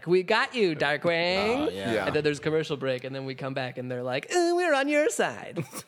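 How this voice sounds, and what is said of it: Impression of cartoon villains. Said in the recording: “Is that a very good impression? ... That's a great impression.”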